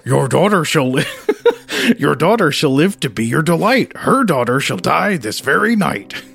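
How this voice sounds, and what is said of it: Cartoon dog voice. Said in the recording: “how to do a dog voice ... do I do a Scooby-Doo voice here? ... Yeah, that's what I mean.”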